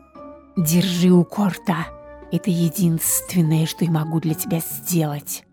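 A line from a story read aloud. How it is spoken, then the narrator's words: Snake-like hiss. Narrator (Russian): По-змеиному прошипела она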